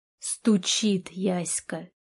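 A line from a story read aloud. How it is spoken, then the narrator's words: Hoarse. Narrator (Russian): повторил сипло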